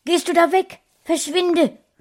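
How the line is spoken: Owner calling out. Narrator (German): rief Frauchen gleich

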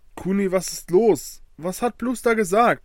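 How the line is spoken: Excited question. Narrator (German): fragte Soraya ganz aufgeregt

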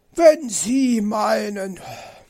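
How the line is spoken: Sighing. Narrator (German): seufzte

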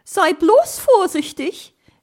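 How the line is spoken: Anxious call after him. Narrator (German): rief ihm Frau Elster nach und blickte ängstlich nach oben

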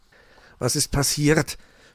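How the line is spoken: Trembling voice asking. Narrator (German): fragte Meister Schwarzrock mit zitternder Stimme

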